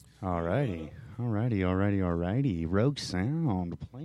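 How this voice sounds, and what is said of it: Usual voice. Nothing is said of it.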